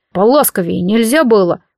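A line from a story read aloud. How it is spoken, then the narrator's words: Sleepy grumble. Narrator (Russian): проворчал Морт, потирая сонные глаза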